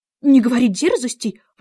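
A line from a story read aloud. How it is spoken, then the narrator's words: Exclaiming. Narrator (Russian): воскликнул король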